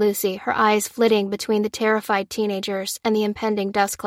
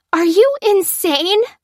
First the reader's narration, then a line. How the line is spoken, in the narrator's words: cried Fliss